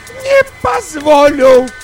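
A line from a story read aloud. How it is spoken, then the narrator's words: High-pitched shriek. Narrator (Russian): взвизгнула мама на самой верхней телепатической волне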